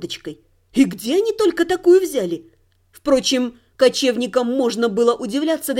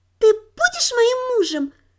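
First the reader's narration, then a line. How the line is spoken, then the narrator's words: Childlike little voice. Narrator (Russian): детским голоском спросила она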